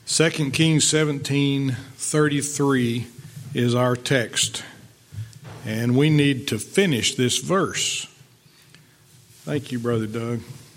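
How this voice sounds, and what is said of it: Slightly raspy voice. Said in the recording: “My voice is still a little raspy from whatever I had earlier in the week, but it's not as bad as it could be.”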